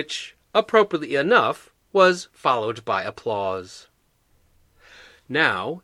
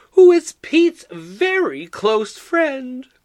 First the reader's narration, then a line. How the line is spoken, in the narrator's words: Betty exclaimed with bravado